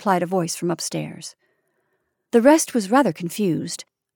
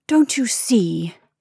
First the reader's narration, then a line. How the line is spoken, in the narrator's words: finished desperately